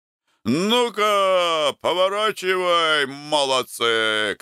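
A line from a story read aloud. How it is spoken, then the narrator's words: Shouting to a crowd. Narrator (Russian): кричал он с балкона, гудевшей на мысу толпе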